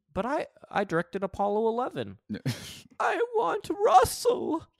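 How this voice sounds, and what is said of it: Imitates another person's voice. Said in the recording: “I'm doing three different impersonations. I'm doing Ron Howard, Paul's mother, and Russell Crowe.”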